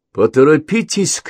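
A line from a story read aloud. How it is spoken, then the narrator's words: Shout. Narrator (Russian): крикнула Дженни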